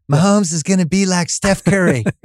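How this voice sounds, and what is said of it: Imitates another person's voice. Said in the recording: “You want to do my own accent? ... You want to do my imitation of your imitation of me? ... I don't sound like that at all.”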